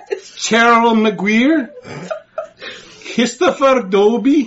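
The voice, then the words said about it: Imitates another person's accent. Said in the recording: “He's doing your accent now.”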